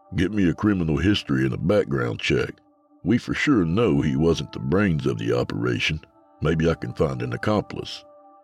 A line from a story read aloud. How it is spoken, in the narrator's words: I answered